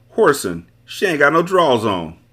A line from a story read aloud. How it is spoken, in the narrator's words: Tony yelled to me